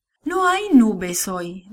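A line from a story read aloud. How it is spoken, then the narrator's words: Sad. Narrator (Spanish): dijo tristemente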